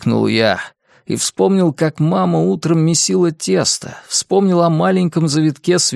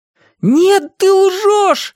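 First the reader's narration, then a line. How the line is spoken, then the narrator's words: Yelling. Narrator (Russian): заорал я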